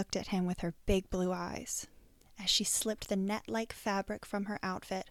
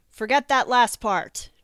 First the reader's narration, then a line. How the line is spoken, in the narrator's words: yelled over his shoulder